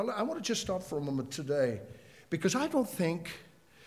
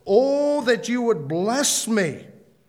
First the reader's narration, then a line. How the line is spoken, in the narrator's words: He cried out to the God of Israel